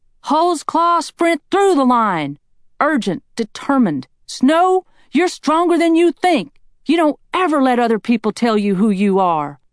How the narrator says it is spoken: the sound of my own voice shouting

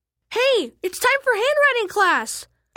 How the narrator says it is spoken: I screamed

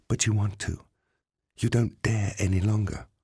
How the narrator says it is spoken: whispered into his ear

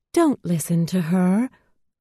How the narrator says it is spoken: piped up a calm new voice

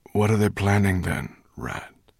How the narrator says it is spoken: asked Slatebeard wearily

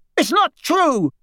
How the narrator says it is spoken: cried the boy

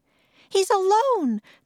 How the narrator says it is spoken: the mother cried

